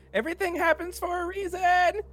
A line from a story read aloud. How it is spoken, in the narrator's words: Bular shouts